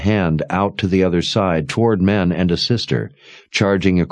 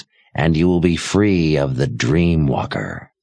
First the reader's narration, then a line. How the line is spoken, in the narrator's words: the old woman said in a raspy voice